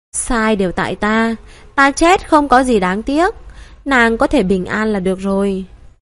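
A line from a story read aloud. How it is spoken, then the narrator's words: Smiling. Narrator (Vietnamese): Nam Thiên Vô Phương mỉm cười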